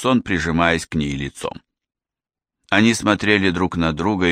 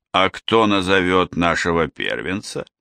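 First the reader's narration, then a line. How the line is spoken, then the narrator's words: Sighing. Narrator (Russian): Она уютно устроилась в его объятиях и вздохнула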